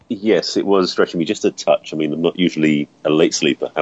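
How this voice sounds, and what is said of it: Speaks with a noticeable accent. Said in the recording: “his brilliant and beautiful accent.”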